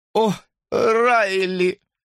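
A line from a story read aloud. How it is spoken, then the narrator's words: Sighing. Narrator (Russian): вздохнула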